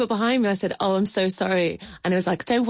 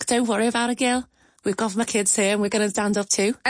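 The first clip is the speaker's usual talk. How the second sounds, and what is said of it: Very good put-on Liverpool accent. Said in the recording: “that was a very good Liverpool accent.”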